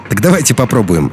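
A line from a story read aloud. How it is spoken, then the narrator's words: Cheerful, then laughing. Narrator (Russian): весело предложил Илья и рассмеялся собственной шутке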